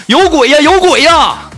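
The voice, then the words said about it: Shouting in alarm. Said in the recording (Chinese): “我就喊他 ... 你别喊了”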